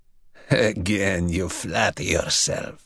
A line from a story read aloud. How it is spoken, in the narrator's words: the other chuckled